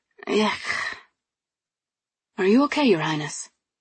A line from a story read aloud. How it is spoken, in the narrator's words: His voice was so tender, but mercifully lacking pity